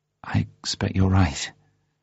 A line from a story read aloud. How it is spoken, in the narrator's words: she said nervously